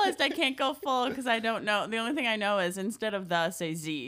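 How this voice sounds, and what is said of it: Usual voice. Nothing is said of it.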